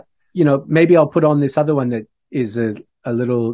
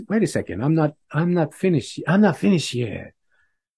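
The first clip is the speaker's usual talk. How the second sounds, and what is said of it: Bad imitation of another person's voice. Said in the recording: “my bad Bob Dylan impression.”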